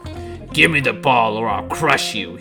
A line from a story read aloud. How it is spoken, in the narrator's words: he said with a sneer